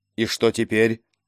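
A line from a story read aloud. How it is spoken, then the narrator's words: Plain. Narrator (Russian): спросил Кийск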